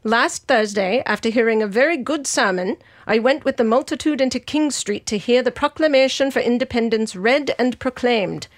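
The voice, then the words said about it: Articulate historical Abigail Adams voice. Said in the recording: “my history voice ... I'm suddenly more articulate ... your Abigail Adams ... this accent”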